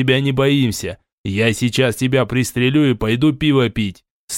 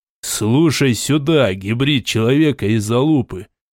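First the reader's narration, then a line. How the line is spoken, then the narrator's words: Calm voice. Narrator (Russian): Спокойным голосом ответил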